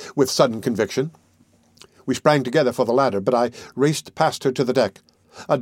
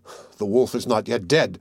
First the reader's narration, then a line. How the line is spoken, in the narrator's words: I muttered to myself